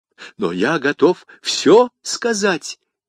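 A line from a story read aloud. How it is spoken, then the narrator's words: Exclaiming. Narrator (Russian): воскликнул Бонасье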